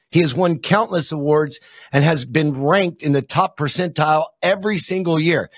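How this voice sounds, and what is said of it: Throaty radio-style voice. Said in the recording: “You have a great radio voice, by the way. Very throaty.”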